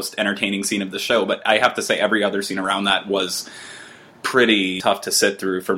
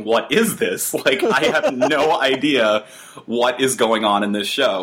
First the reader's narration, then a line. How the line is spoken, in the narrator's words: laughing so hard and going